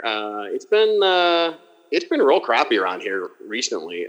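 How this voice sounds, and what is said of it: Put-on Pittsburgh yinzer accent. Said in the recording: “I do pride myself on being able to do a pretty good fucking yinzer accent ... That's pretty solid.”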